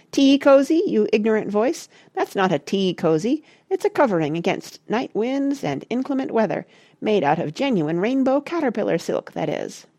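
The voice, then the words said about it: Squeaky, indignant character voice. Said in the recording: “asked the squeaky voice indignantly”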